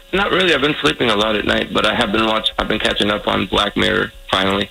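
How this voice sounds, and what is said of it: Tired, rough-sounding voice. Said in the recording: “my voice sounds awful ... No, you just sound tired.”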